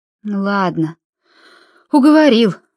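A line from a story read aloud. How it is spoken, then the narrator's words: Sighing. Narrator (Russian): вздохнула миссис Гонт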